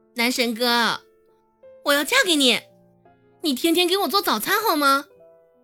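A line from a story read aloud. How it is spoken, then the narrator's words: Eager loud shout. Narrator (Chinese): 唐一贤眼巴巴的看到那些空空的碟子，忍不住大声喊道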